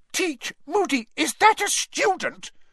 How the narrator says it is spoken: shrieked Professor McGonagall

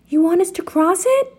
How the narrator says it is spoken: shouted

